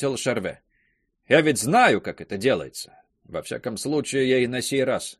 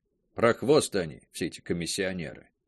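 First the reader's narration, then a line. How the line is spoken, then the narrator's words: Grumbling. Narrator (Russian): ворчал Логар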